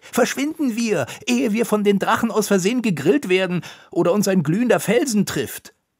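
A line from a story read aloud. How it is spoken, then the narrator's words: Calling out. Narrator (German): rief Konitschek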